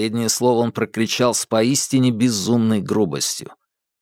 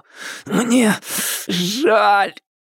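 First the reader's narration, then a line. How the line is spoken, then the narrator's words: Gasping moan. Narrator (Russian): простонал, судорожно хватая ртом воздух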